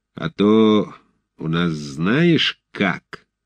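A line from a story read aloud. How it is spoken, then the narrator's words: Hoarse menacing threat. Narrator (Russian): зловещая угроза, произнесенная сиплым голосом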